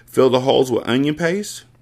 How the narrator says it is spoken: Sam laughed

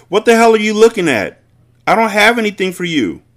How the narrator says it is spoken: Breeze knew that her soul had disappeared when she shouted

